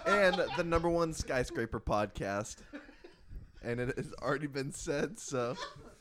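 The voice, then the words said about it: Hoarse, fading voice. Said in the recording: “I just have laryngitis. ... I'm actively losing my voice.”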